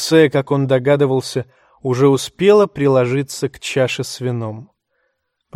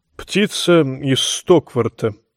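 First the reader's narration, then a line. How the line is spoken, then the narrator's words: Awkward mumble. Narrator (Russian): промямлил Пицель, чувствуя себя крайне неловко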